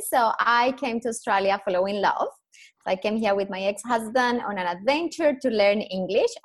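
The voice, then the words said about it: Colombian accent in English. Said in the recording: “I am Colombian, proud Colombian. Obviously, my accent gives me away within two seconds.”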